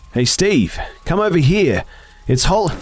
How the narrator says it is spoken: I shouted

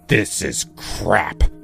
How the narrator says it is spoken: he said, his voice dripping with disdain

